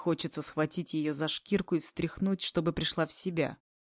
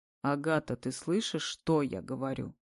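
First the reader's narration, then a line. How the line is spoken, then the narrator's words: Cold reproach. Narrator (Russian): Холодно выговариваю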